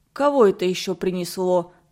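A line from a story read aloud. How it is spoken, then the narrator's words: Grumbling. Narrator (Russian): проворчал Пири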